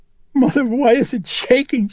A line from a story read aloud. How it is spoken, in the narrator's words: she cried